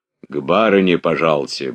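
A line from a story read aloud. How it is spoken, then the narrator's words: Deep bass voice. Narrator (Russian): басом сказал лакей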